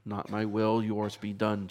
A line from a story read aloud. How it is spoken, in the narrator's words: Jesus says